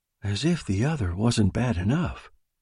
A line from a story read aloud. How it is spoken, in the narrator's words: said Alice faintly